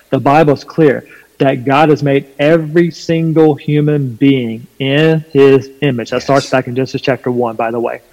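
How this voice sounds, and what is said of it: Slight Southern American twang. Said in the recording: “I'm from North Carolina, there's a bit of a southern twang in my voice”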